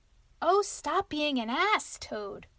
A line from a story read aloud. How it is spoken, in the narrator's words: cried Mole despairingly